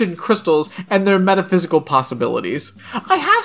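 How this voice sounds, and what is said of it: Usual voice. Nothing is said of it.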